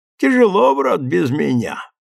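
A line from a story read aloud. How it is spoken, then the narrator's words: Chuckling. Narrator (Russian): Хохотнул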